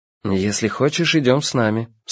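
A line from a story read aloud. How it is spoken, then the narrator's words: Calm. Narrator (Russian): спокойно сказал Йона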